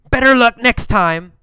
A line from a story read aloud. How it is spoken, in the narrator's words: Alan yelled